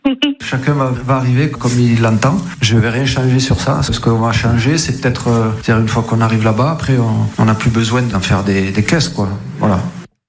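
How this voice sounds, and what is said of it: Southern French accent. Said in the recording (French): “L'accent du sud”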